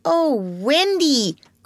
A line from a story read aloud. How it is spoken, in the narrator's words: cried Toodles